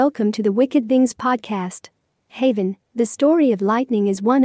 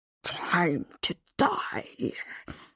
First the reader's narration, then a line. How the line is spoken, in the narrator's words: growls